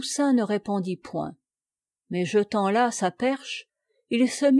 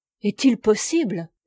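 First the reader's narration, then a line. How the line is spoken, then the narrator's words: Terrified mother exclaiming. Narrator (French): s'écria la pauvre mère, passant subitement de la sécurité à l'épouvante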